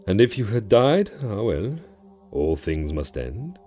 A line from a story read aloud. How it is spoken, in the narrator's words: added wistfully